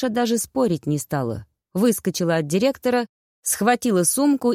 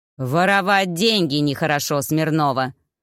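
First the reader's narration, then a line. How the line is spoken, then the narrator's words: Furious growl. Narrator (Russian): Покраснев от ярости, прорычал начальник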